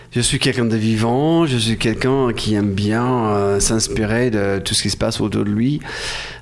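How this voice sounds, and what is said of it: Slight foreign accent in French. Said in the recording (French): “J'ai quand même un petit accent que j'ai gardé. Apparemment, on trouve ça un peu sexy.”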